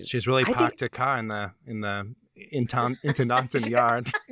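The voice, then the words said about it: Attempted Boston accent. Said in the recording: “please never try and do a Boston accent ever again in my presence.”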